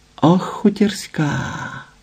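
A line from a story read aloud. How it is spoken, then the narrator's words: Whispered. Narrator (Ukrainian): прошепотіла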